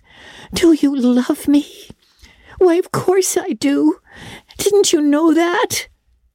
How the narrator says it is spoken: cried Anne

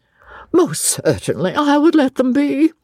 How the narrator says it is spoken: she cried

